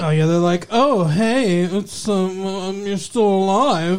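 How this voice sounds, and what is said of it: Impersonation of whiny characters. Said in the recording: “that's exactly, that's a perfect that's impersonation.”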